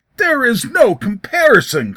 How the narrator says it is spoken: cried David

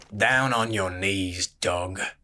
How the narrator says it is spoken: snarled the cloak with the irons

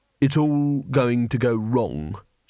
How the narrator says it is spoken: said Rincewind flatly

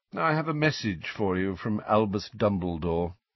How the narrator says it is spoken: Phineas Nigellus said lazily

